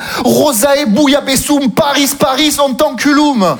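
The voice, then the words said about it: Southern French accent. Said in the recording (French): “Moi, je viens du Sud... Et avec l'accent, sinon ça marche pas.”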